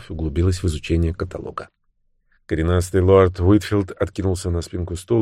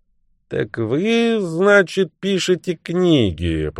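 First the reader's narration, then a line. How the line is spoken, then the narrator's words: Grumbled. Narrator (Russian): пробурчал он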